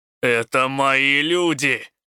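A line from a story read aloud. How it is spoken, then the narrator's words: Growled. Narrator (Russian): рыкнул Рук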